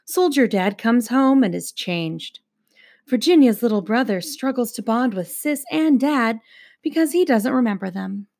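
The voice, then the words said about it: Public-radio announcer reading voice. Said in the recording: “the voice is just... It wasn't as good this time... You'll work on your NPR voice.”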